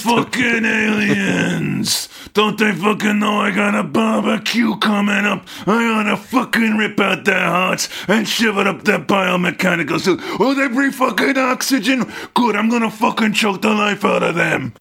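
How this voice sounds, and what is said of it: Gruff army brass character voice. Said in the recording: “that upsetting impression”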